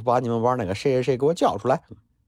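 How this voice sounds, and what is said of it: Imitated Henan dialect. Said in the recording (Chinese): “用河南话学个河南话”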